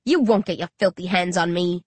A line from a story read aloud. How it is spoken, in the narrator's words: I snarl